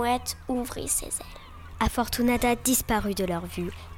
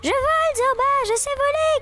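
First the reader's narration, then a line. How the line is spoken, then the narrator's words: Euphoric shout. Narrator (French): cria-t-elle, euphorique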